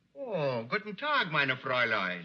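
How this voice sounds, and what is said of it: Exaggerated comic German accent. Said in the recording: “that hokey comic accent he's using ... make it a little bit subtle, make it sound real”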